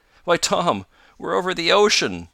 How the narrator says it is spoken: cried

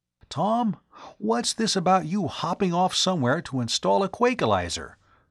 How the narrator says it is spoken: he asked anxiously

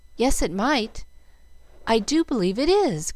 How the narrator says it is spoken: cried Jill, hardly daring to trust her own eyes

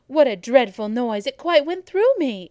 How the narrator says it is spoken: exclaimed Abbott

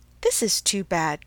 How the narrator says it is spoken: cried Emma

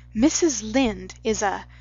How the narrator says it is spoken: began Anne hotly

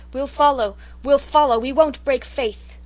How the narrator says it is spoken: The soldiers cheered her like mad, and cried

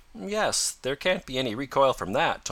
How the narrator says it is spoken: Tom said

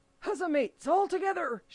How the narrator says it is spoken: shouted Mary

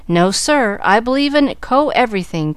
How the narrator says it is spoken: cried Chick, a mild youth

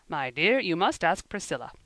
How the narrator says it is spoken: he said, in the once firm voice, now become rather broken

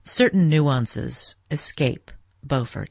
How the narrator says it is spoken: said Mr

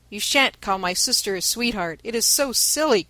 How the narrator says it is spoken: cried Demi

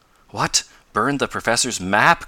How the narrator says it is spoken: cried Ned

